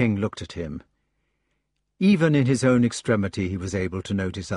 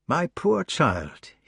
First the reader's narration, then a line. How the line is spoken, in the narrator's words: said